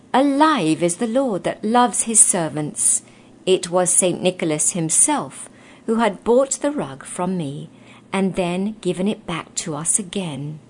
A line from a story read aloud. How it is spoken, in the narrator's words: he exclaimed joyously